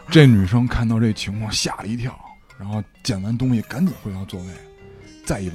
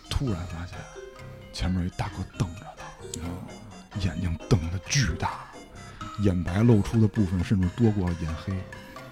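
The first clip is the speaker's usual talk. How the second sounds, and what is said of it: Very quiet, soft speech. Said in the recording (Chinese): “你要再声儿再小就说不出来了啊！你这你不用那么小声儿”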